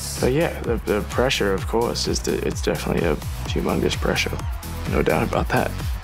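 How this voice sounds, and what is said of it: Australian accent with slight US twang. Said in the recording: “slight US twang Australian mixed accent”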